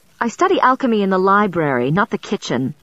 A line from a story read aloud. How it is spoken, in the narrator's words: I snapped, forgetting to modulate my tone or accent